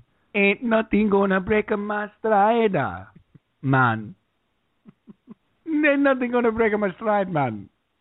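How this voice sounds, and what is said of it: Bad put-on Jamaican accent. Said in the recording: “The worst Jamaican dialect.”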